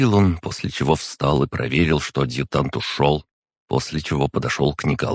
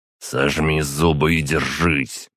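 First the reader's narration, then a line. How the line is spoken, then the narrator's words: Growl. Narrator (Russian): прорычал на него Ермолов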